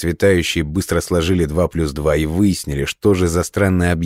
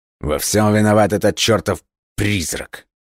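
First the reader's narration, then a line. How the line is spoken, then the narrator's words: Through gritted teeth. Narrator (Russian): процедил сквозь зубы американец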